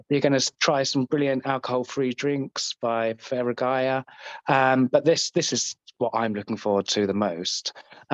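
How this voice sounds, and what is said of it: Scottish accent. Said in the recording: “as you probably guessed from my accent, I am actually Scottish”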